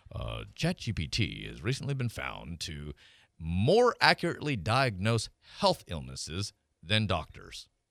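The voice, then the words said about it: Newsreader-style voice. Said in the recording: “Let me put on my news voice”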